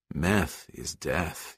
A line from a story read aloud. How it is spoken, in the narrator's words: Yeager said softly